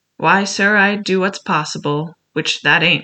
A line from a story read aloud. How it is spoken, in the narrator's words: said Silver